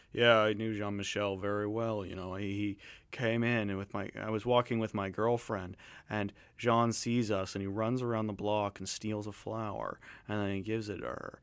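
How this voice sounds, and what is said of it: Low-voiced imitation of another person. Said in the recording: “I don't know if that's a good impression. ... similar sort of low voice”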